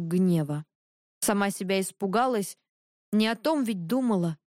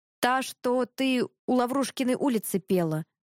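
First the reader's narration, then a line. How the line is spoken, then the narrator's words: Hoarse. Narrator (Russian): хрипло сказала Гнева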